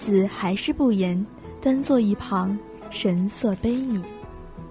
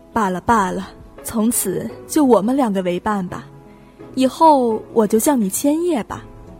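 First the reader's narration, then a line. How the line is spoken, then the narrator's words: Soft sigh. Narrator (Chinese): 苏雨轻叹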